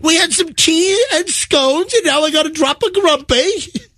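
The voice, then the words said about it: Put-on British accent. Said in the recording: “that makes more sense when you say it in a British accent.”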